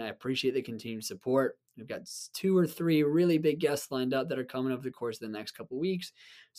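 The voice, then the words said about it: Raspy voice from a cold. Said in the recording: “bearing with me with my cold ... my raspy voice like this”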